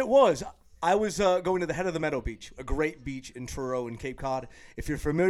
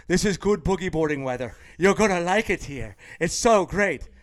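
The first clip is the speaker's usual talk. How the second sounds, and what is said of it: Imitated Irish accent. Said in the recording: “That's a pretty good accent. ... Irish.”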